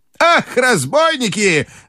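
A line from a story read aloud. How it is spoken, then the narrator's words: Shout. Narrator (Russian): закричала она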